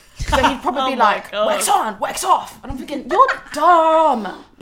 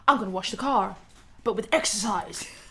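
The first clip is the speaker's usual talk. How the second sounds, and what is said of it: Cheesy American accent. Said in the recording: “he's got a cheesy American accent”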